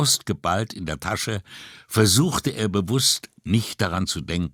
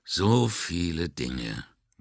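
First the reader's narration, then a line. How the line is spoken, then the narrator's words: Mutter. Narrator (German): murmelte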